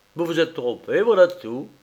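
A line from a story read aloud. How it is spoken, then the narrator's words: Curt dry tone. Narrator (French): dit Malcolm sèchement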